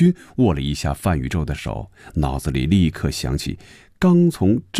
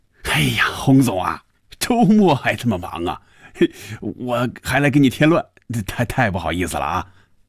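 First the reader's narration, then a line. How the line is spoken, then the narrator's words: Laughing. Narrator (Chinese): 范宇宙笑着说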